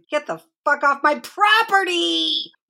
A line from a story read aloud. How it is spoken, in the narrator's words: she screamed it loud and long and started stamping her feet